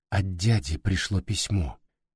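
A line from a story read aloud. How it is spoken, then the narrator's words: Barely audible mutter. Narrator (Russian): едва слышно пробормотал Тосия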